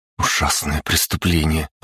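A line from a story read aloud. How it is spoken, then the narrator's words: Muttered. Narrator (Russian): пробормотала она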